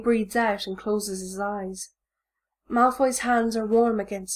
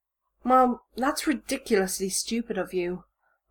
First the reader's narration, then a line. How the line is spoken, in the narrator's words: Malfoy says sharply